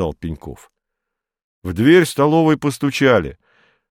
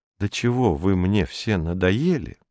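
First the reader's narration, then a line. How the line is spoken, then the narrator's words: Plain. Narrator (Russian): сказала она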